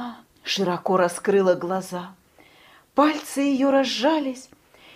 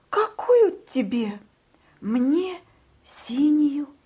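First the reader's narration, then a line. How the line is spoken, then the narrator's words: Timid. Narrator (Russian): робко сказал Павлик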